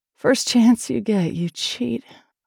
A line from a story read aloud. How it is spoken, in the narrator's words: moaned